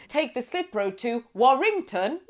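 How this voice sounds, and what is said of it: American sat-nav voice impression. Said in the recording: “Sat-navs are the best when it's an American voice and they can't read out every single place in the UK. So they have to piece it together.”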